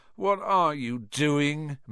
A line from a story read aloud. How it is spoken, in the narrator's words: moaned Ron, grey-faced